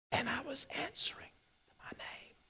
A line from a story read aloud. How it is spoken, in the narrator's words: And the boy faintly replied